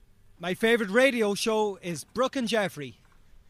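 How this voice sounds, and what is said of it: Attempted Irish accent. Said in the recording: “my Irish accent”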